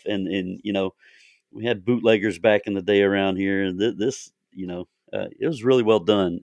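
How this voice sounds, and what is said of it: Southern US twang accent. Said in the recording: “I'm in the deep South. You can't tell by the Southern twang”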